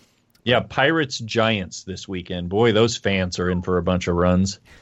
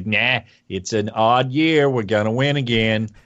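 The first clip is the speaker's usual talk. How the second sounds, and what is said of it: Put-on San Francisco accent, Bostonian-sounding. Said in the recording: “apparently that's a San Francisco accent ... they sound Bostonian a little bit”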